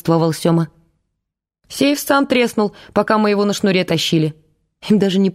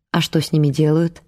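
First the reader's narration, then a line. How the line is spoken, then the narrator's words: Gentle, affectionate question. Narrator (Russian): ласково спросил Дворкин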